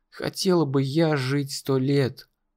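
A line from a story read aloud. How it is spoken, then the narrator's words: Very quiet. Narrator (Russian): очень тихо сказала она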